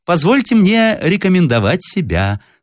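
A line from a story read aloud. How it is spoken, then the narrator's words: Thin high male voice. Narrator (Russian): сказал тоненьким голосом сухощавый и длинный мужчина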